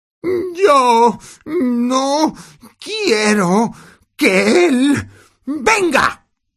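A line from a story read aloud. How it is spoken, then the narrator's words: Fake sobbing exclamation. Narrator (Spanish): exclamó Dudley entre fingidos sollozos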